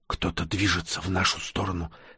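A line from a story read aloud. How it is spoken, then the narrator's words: Whisper close to ear. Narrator (Russian): склонившись к самому уху Всеволода, прошептала она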